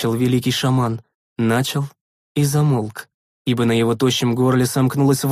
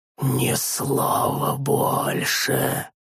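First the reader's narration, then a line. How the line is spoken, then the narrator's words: Whispered. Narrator (Russian): Прошептал Тарис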